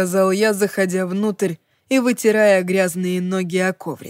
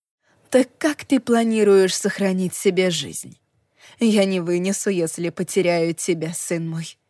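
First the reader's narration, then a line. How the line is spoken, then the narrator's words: Whisper. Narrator (Russian): прошептала она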